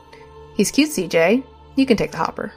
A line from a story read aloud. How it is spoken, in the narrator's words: laughed and swatted his arm before she turned to me and said